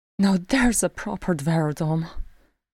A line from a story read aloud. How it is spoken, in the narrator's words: breathed Freeze